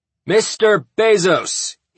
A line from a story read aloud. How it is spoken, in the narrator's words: he bellowed